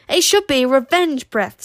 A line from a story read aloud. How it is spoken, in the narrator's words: said Zar crossly